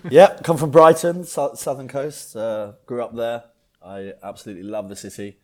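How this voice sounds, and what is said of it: English accent. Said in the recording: “you come from England. People can probably notice the accent.”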